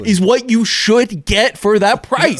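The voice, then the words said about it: Raised, loud passionate voice. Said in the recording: “raise my voice”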